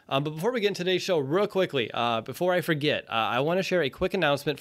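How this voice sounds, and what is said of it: Sick, congested voice, slower delivery. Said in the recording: “running a fever here today. So if I'm a little slow in my delivery or my voice isn't what you're expecting it to be ... I've been battling some respiratory stuff.”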